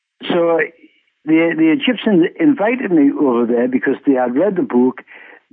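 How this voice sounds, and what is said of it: Non-native English accent. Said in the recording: “I have an accent and I'm trying my very best to speak English as clear as I possibly can.”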